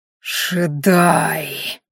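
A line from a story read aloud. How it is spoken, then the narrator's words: Heartfelt hiss. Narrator (Russian): с чувством прошипел Ранхаш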